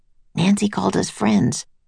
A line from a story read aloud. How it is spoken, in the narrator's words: Jack whispered to Annie